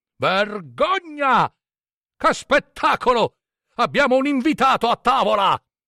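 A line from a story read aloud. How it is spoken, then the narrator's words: Shouting powerfully. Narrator (Italian): gridò con poderosa voce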